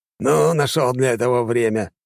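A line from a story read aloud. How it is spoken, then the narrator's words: Snorting hmph. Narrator (Russian): хмыкнул Квазик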